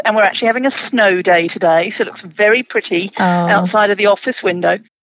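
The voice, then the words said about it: British accent. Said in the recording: “as you can tell from the accent ... I'm originally from the UK”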